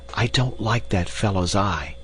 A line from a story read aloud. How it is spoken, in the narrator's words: he whispered to Carl